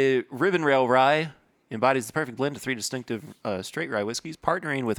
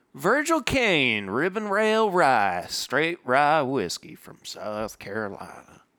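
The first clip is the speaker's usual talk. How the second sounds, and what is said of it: Put-on South Carolina accent. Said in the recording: “I adopted that accent about halfway mm-hmm. through because I realized it seemed slightly appropriate.”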